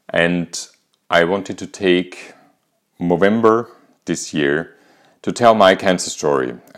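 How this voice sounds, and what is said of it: Austrian-accented English. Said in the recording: “as you might hear from my accent, I'm not English, neither American. I'm actually Austrian.”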